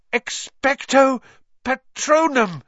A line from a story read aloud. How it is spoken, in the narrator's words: gasped